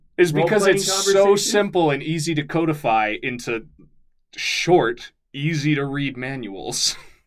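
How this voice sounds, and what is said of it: Sarcastic tone. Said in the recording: “It was sarcasm. ... You're being sarcastic.”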